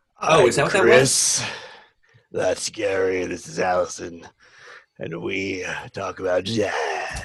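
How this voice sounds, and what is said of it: Raspy smoky put-on voice. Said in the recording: “creepy to like old lady smoking like packs of cigarettes or like seductive ... I've got the raspy voice ... the jazz singer thing”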